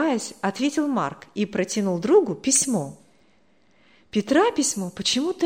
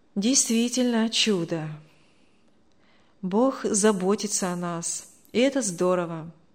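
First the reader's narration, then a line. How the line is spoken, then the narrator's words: Sad. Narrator (Russian): грустно сказал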